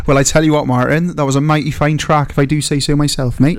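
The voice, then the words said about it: Put-on Somerset accent. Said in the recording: “say his name now in like a southern, Somerset accent? ... I can't not say it in a Somerset accent.”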